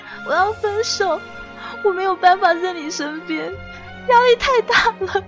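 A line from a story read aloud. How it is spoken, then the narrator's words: Crying. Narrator (Chinese): 我跟李岩哭着说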